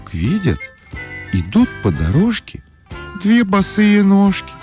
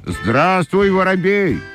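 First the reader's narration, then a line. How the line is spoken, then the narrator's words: Shouting shoes. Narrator (Russian): закричали башмачки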